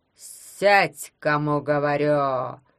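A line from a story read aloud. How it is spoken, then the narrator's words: Roaring. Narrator (Russian): взревел депутат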